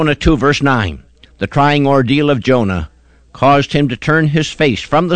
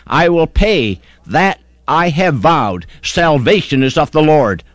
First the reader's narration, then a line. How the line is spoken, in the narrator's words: he cried